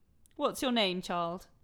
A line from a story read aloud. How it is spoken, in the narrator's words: said the Queen impatiently